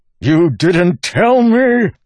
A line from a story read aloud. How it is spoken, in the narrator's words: Wax spat